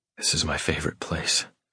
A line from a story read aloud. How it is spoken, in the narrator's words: I murmur